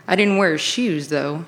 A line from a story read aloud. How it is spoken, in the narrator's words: he chuckled